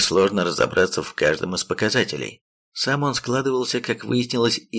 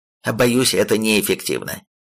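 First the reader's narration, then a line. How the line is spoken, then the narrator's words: Indignant warning. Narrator (Russian): предупредил дракон, возмущенно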